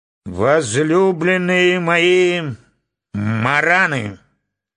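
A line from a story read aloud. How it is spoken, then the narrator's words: Hollow, strong voice. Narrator (Russian): начал он глухим и сильным голосом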